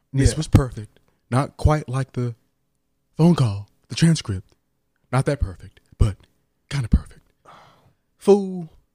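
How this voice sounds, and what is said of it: Imitates another person's voice. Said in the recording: “your Trump impression”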